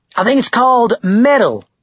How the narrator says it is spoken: Todd shouted over the loud guitar solo

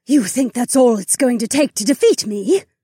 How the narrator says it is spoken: Remna spat

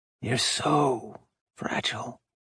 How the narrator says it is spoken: Orion breathed

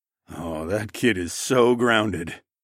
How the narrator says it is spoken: grumbled

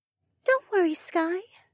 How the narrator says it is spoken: Mariah said in a soft voice

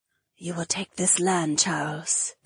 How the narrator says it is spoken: Edeni whispered

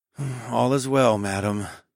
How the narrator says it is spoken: I murmured

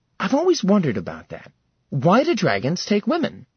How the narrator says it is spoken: He tisked playfully

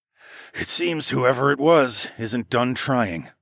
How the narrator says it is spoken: I muttered

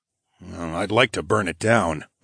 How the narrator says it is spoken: I grumbled as I recalled the thieves' threat toward Rofin's daughters

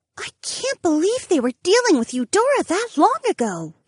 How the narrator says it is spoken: Ariana gasped

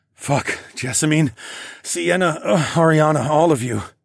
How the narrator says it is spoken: moaned

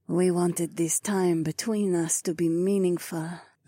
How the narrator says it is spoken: Zoe purred

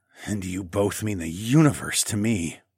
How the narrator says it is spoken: I added in a rough voice

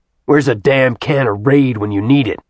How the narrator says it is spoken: growled

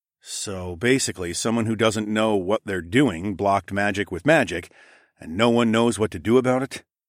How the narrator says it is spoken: I grunted

